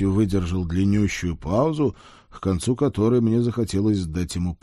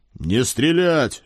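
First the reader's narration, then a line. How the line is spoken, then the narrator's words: Barked command. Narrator (Russian): рявкнул я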